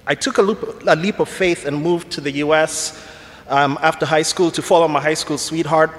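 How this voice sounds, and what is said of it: Kenyan English accent. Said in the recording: “Some of you are probably wondering about my accent. It's Kenyan.”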